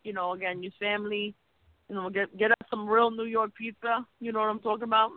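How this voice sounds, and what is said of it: Strong New York accent. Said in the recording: “your New York accent, comes out more and more every week”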